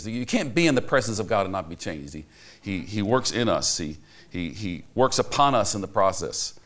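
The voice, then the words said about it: Speaker's own non-native accent. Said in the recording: “Forgive my accent.”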